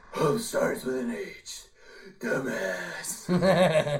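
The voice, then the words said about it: Dumb gravelly Batman voice. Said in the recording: “you do the dumb Batman voice so much better... he does a good impersonation of Pete Holmes doing an impersonation of Batman”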